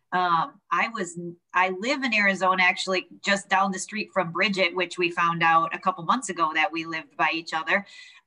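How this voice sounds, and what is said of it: Midwestern Wisconsin accent. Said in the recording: “I'm originally born and raised outside of Milwaukee, Wisconsin. So if you hear the accent, that is where it comes from. I'm a Midwest gal.”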